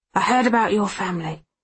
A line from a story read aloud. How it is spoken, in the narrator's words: she says gruffly